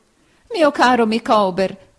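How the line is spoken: Wife exclaiming. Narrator (Italian): esclamò sua moglie

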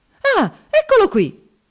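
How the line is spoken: Indignant exclamation. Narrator (Italian): esclamò indignato

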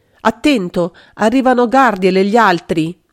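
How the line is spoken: Shouting. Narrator (Italian): Magda aveva gridato

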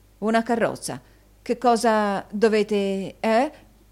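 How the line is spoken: Stammering. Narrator (Italian): balbettò Newman

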